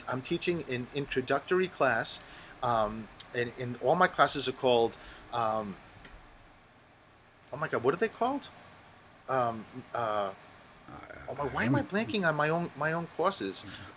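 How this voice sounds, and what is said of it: Strong Rhode Island accent. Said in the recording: “your Rhode Island accent is front and center everything you've been saying ... my accent is so bad that people can't understand me ... It's front and center”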